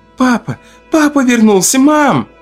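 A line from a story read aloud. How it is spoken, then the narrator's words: Girl's sudden shout. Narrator (Russian): Вдруг закричала девочка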